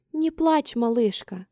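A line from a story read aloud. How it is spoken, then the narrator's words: Very tender. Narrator (Russian): сказала она самым нежным тоном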